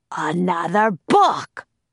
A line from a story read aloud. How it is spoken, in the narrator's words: roared Cap'n Bones